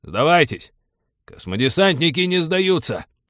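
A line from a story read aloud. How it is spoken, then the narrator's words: Reflexive bark. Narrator (Russian): На автомате рявкнул капитан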